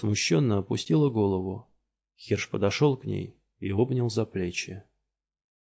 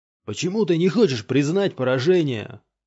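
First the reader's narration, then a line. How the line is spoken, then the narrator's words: Shouting. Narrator (Russian): кричал Юругу своему богу, своему отцу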